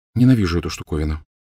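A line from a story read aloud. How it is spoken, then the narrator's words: Quiet. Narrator (Russian): тихо сказала она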